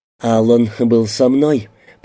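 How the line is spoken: Through gritted teeth. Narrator (Russian): проговорила Тина сквозь зубы

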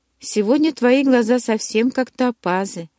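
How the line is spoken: Sighing. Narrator (Russian): вздохнула я

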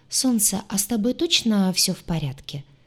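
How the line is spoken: Soft, careful question. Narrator (Russian): спросила мягко, опасаясь резким тоном спровоцировать очередной виток бреда

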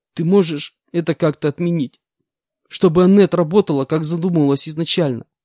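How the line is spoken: Sobbing question. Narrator (Russian): Сквозь всхлипы спросила Анна

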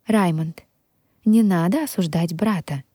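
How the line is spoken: Calm tone. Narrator (Russian): спокойным тоном произнесла

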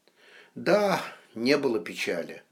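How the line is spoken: Sighing. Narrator (Russian): вздохнул Кричко

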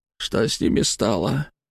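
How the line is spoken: Tense muttering through teeth. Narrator (Russian): процедил он, напрягшись

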